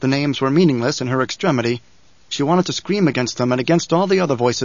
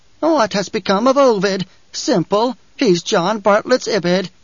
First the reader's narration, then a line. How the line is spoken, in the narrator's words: An insane cackle within her head asked